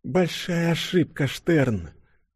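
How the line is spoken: Barely audible whisper. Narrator (Russian): чуть слышно прошептала Юля

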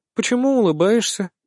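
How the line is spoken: Calm question. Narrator (Russian): спрашивает спокойно

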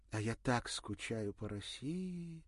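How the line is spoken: Sighing. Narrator (Russian): вздохнула Ирина

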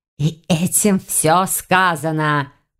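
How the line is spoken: Irritated hiss. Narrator (Russian): прошипел гость, раздраженно вильнув распушенными хвостами

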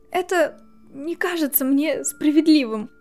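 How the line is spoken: Trembling voice. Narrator (Russian): сказала Гермиона дрожащим голосом

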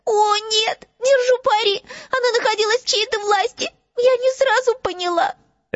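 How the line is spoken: Sobbing. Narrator (Russian): Ленни опять зарыдала

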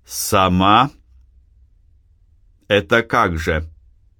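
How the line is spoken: Shout. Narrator (Russian): закричал Силантий

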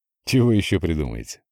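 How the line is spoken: Snorting. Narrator (Russian): хмыкнул Андрей

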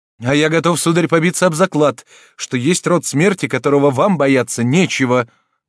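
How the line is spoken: Angry exclamation. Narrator (Russian): воскликнул молодой человек с гневом, возбужденным грубой дерзостью прохожего

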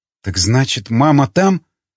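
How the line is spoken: Quiet, strained. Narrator (Russian): выдавила тихо

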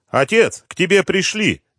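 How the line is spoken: Young man's shout. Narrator (Russian): крикнул молодой человек

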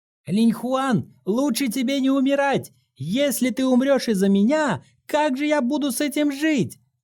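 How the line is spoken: Shouting. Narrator (Russian): крикнул в никуда Инь Хан

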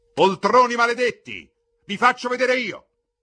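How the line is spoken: Angry shout. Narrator (Italian): gridò Al

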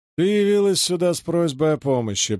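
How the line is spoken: Singsong chanting. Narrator (Russian): произнес Хай нараспев

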